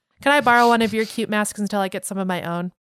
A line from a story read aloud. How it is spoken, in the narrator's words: She giggled